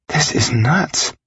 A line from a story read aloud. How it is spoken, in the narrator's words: Bella said in a breathless voice